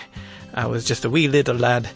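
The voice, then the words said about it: Brief put-on accent. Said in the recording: “I don't know why I said that in an accent.”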